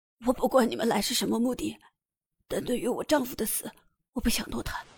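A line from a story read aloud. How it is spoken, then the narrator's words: Hoarse trembling agitated. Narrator (Chinese): 他沙哑的嗓子带着些神经质的颤音，有些激动的说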